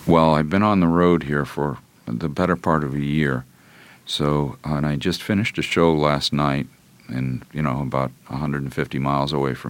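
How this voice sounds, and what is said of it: Lower, deeper voice than usual. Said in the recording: “my voice is a lot lower right now than it naturally would be if I wasn't on the road”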